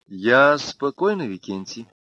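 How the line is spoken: Gentle. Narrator (Russian): мягко сказала она

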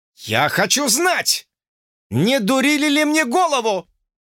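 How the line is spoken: Almost shouting. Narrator (Russian): Почти закричал Джордж

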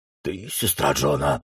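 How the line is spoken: Hoarse stranger's question. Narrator (Russian): спросил незнакомец хриплым голосом

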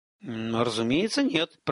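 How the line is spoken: Grumbling. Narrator (Russian): пробурчал Женар

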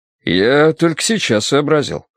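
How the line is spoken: Cheerfully surprised. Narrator (Russian): весело удивился Каховский

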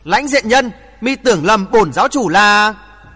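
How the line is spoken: Startled loud voice. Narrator (Vietnamese): Người bịt mặt giật mình, lớn tiếng nói

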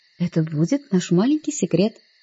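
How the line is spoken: Whisper. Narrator (Russian): шепотом сказала я

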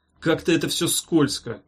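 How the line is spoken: Grumbling. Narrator (Russian): проворчал он

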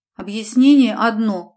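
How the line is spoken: Gruff mutter. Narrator (Russian): буркнула

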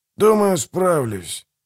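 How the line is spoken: Sighing. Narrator (Russian): вздохнул Манфрид

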